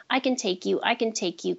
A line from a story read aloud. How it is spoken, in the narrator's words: Cody said